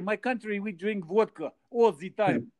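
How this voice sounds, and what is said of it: Put-on Russian accent. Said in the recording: “When I do the accent, though, people laugh and they say, "Oh, you're pretty good in English."”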